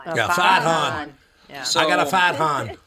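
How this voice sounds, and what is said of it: Put-on Boston accent. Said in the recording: “In a Boston accent”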